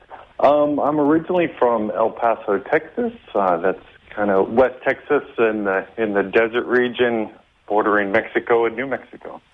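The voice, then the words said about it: West Texas American accent. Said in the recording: “I love the accent.”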